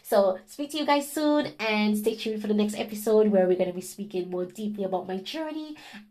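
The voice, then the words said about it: Unusual accent. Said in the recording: “this weird accent”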